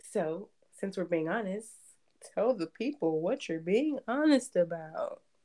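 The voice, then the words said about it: Game show host voice. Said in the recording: “That was my game show voice”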